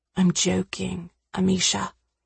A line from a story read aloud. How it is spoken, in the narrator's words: he said quietly